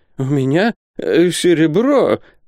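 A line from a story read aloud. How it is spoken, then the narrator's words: Frightened stammer. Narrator (Russian): пролепетал Исаак Хакабут, побледнев от страха, точно на него напали воры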